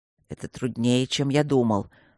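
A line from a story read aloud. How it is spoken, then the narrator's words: Through gritted teeth. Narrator (Russian): сквозь зубы проговорил Свидерский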